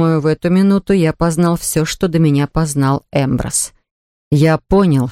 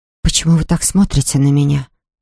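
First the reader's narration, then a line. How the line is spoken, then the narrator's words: Whispered. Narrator (Russian): прошептала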